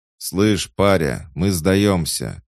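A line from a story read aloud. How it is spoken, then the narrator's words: Shouted. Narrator (Russian): крикнул один из противников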